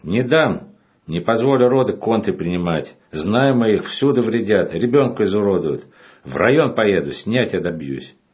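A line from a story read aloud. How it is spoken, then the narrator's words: Chairman shouting. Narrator (Russian): Председатель кричал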